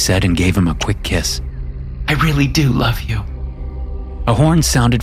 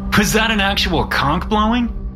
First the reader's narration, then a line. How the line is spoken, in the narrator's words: He asked and laughed